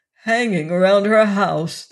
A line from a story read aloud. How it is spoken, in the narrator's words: the musician groaned